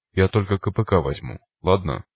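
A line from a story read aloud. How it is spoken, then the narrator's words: Plain. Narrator (Russian): сказала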